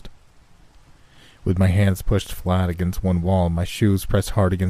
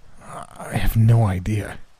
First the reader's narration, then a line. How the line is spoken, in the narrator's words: Guy said through gritted teeth